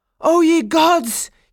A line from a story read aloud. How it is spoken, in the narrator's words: he cried out